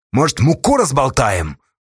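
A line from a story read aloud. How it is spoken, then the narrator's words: Loud angry question. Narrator (Russian): громко и зло спросил Асташа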